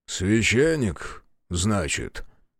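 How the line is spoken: Disapproving mutter. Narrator (Russian): пробормотал другой стражник, с явным неодобрением

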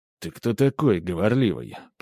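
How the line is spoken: Menacing, through teeth. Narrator (Russian): процедил я, стараясь выглядеть грозно и опасно

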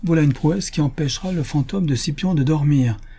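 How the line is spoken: Exclamation. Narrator (French): s'écria M

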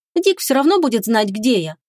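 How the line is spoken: Grumbling. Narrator (Russian): проворчала она

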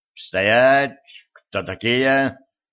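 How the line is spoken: Stern commanding question. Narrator (Russian): грозно спросил лейтенант, возглавлявший отряд

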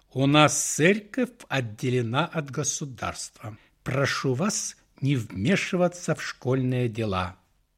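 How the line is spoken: Icy reply. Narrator (Russian): Директор ледяным голосом ответила священнику

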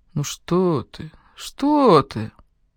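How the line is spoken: Muttering. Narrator (Russian): бормоча

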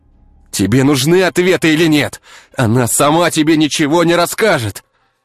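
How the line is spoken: Straining shout. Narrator (Russian): Краснея от борьбы, прокричал Артем

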